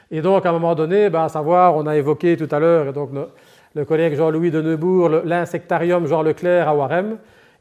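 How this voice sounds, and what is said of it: Belgian Liège French accent. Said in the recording (French): “comme, mon accent laisse présager, ben, je suis effectivement liégeois d'origine”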